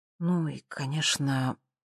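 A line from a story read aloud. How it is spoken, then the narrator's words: Quiet. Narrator (Russian): добавила она тихо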